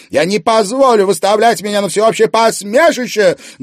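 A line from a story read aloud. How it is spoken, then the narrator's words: Loud. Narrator (Russian): громко продолжала Анфиса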